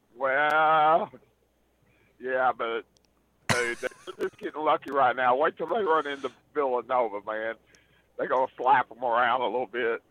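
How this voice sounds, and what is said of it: Hoarse voice. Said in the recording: “I'm a little hoarse. I was yelling at Tennessee to win”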